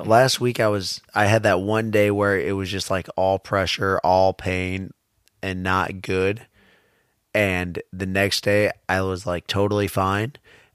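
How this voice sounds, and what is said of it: Hoarse, sick-sounding voice. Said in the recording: “You sound worse today than last week ... losing my voice.”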